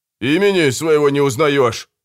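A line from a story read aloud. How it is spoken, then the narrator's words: Loud wailing yell. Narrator (Russian): завопил незнакомец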